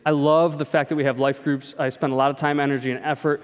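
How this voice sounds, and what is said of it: Usual voice. Nothing is said of it.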